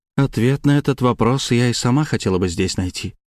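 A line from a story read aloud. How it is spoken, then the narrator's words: Sighing. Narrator (Russian): вздохнула графиня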